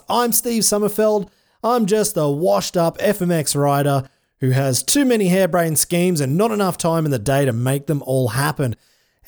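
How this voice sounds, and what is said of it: Strained, tired-sounding voice. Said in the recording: “you can probably hear my voice is getting a little bit strained right now”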